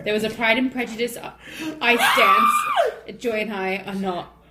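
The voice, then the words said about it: Put-on British accent. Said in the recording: “Can I drop the accent now? ... Such a good job, though. ... You could be on a British TV show now.”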